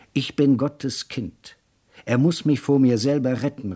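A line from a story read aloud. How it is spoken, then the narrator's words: Calling out while running. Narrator (German): rief er, als er im Schatten der Bäume die Straßen entlang lief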